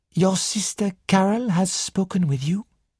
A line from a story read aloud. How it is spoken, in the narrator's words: Poirot asked gently